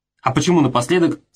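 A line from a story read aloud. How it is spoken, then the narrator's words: Plain. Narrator (Russian): спросил Забой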